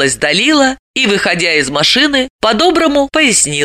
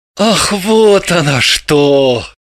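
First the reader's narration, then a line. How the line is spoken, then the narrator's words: Relieved sigh. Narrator (Russian): вздохнул с облегчением Орлов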